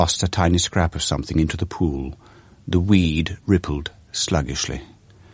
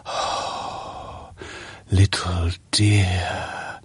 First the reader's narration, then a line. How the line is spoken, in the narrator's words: breathed the old man